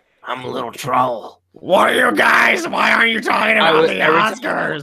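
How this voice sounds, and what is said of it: Silly little troll character voice. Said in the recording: “I do my troll voice,... you sound like troll”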